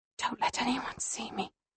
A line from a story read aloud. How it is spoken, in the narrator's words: I whisper